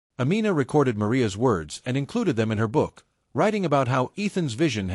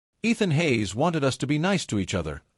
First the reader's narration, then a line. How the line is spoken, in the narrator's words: Leo said in a clear, confident voice